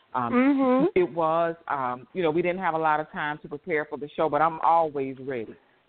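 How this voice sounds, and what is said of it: Tired, slightly raspy voice. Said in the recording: “your voice was, you know, a little tired? ... I'm tired, and I have to apologize if my voice sounds a little raspy.”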